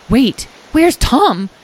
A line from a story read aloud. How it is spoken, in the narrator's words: Edwin exclaimed, just now noticing Tom's pack on the ground